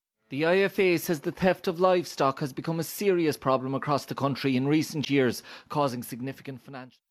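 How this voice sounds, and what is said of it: Toned-down Irish accent. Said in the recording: “an Irish accent ... sometimes they try to sound like a robot for no reason and it makes the accent a little more toned down, right? Less obvious.”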